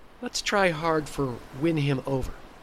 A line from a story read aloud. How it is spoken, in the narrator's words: sighed Hope